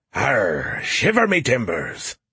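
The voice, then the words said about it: Decent pirate voice. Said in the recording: “did a decent pirate impression”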